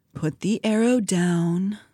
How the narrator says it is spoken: murmured, like he was soothing a wild animal

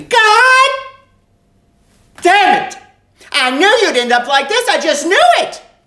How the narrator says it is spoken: She would scream

